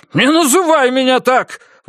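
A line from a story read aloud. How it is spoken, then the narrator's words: Shouted outburst. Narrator (Russian): выкрикнул Бакли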